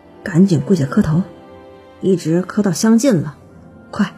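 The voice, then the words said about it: Quiet, hushed speech. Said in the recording (Chinese): “徒弟小声的说”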